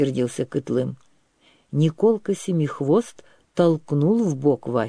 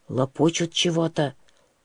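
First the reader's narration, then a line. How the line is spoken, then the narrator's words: Whispered. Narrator (Russian): шепнул Николка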